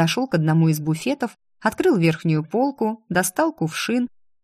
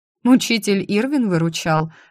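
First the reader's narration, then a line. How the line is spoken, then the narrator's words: Laughing. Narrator (Russian): рассмеялась я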